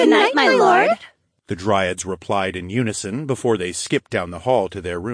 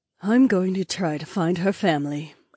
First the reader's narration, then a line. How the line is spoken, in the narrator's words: Aliona murmured